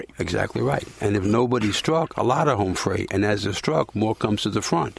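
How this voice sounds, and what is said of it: Southern American accent. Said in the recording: “My accent keeps me out of East Texas ... you seem to have a pretty southern accent”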